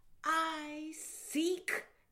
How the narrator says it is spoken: exclaimed the spirit

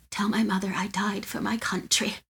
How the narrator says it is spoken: In his dying moments, whispered

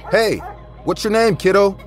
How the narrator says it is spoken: yelled from my balcony

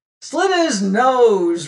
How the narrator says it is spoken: roared another

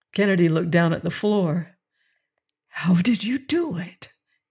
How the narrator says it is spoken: he whispered

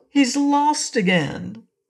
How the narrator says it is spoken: cried Trot

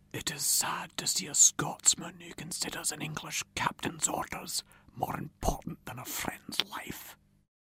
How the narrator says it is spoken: Rob Roy whispered to Ewan

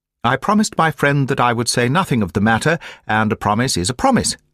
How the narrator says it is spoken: said she

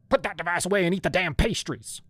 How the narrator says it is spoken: she barked

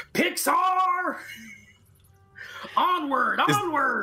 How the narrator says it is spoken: yelling out

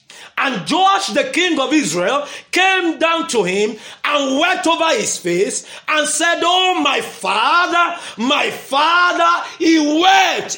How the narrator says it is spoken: he cried

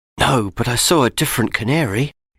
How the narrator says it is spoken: Matt whispered

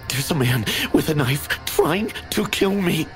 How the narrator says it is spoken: I gasped

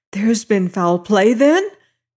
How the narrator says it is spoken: she shrieked

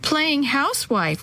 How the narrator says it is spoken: one of them giggled

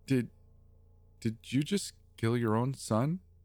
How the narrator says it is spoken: I asked, my voice shaking

